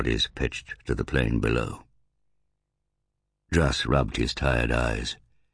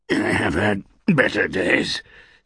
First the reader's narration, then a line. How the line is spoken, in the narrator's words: snarled the old man, gritting his teeth against the pain from his knee